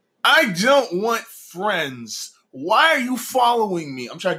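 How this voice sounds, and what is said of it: Whiny put-on voice. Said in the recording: “do my best whiny voice ... I'm not very good at it.”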